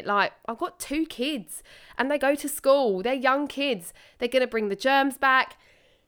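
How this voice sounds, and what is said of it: Voice of someone with a cold. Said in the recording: “I've got a cold. ... Excuse me while I cough.”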